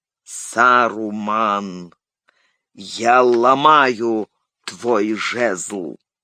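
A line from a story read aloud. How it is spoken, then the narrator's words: Slow, cold, distinct. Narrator (Russian): произнес медленно, холодным и отчетливым голосом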